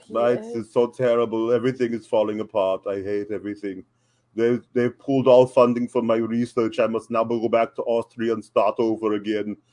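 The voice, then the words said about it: Gloomy Austrian-accented impression. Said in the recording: “my impression of Walter and my impression of Darby Allin ... he's Arnold Schwarzenegger, but he's trying, he's playing depressed”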